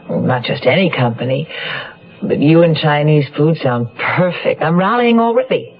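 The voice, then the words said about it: Fuzzy, congested voice with cold. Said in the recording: “You sound a little out of sorts ... I have a cold ... I thought you sounded a little fuzzy”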